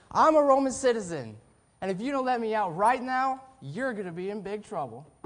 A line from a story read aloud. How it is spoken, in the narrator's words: They could have shouted